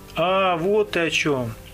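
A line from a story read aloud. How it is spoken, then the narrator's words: Sighing. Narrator (Russian): вздохнул я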